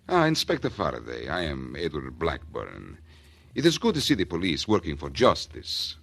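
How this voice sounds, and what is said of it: Put-on Central European accent. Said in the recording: “He talks with an accent ... Central European, maybe ... Well, that's pretty close ... talk his language”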